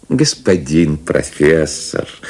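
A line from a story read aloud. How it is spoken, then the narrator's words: Pleasant husky voice. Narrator (Russian): начал незнакомец приятным, сиповатым голосом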